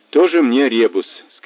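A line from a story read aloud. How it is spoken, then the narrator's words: Plain. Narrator (Russian): сказал Мазур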